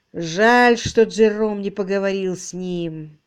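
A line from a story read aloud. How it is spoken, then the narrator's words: Sighing. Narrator (Russian): вздохнув, произнес Марч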